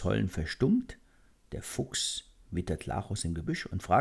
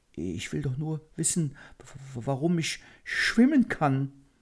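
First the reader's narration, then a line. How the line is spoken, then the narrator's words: Fearful stammering. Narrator (German): Lachus stammelt ängstlich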